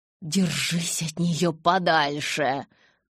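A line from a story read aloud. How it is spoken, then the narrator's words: Hiss. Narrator (Russian): зашипела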